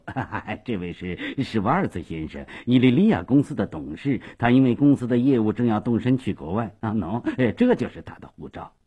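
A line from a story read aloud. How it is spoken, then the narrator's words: Hasty cheerful laughing. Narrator (Chinese): 斯瓦索耶忙笑嘻嘻地说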